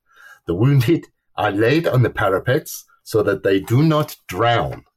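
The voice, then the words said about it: Put-on German accent. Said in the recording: “Your German accent is almost as good as my Danish.”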